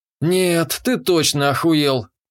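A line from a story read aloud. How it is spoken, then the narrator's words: Declared verdict. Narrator (Russian): поставил вердикт я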